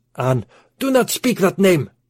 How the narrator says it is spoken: screamed the Arab

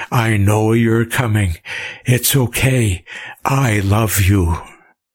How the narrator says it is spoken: he gasped

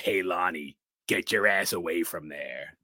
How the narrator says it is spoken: a little playfully, covers his mouth, in a creepy voice

